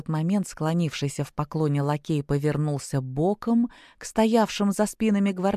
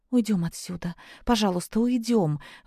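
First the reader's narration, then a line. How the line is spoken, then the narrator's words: Pleading. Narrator (Russian): бледнее взмолилась Зизи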